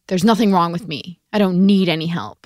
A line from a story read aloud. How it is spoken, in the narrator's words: his mother snapped at him